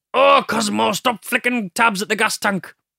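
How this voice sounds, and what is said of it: Imitates cartoon character voice. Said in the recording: “they talk like this ... Doing an impression of Cosmo and Dibs.”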